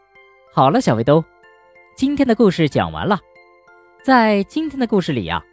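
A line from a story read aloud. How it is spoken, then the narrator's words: Grinning. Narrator (Chinese): 小熊哥哥咧着嘴笑着说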